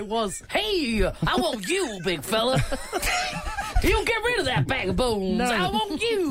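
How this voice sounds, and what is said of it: Usual voice. Nothing is said of it.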